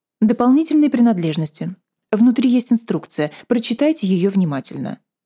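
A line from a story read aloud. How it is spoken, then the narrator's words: Dry, curt woman. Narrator (Russian): сухо ответила медсестра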